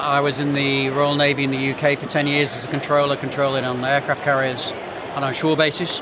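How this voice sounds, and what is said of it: Strong English accent. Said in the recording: “I'm English, obviously, by heritage ... the accent's still strong.”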